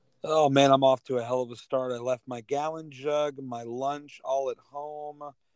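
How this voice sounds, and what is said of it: Worn-out, strained voice. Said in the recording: “My voice is still shot from Saturday”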